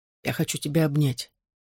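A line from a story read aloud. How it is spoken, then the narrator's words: Whispered in ear. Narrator (Russian): шепнул мне на ухо Джонни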